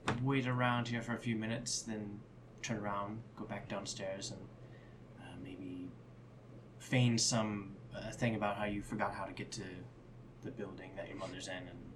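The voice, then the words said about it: Whispering. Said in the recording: “I'm whispering this”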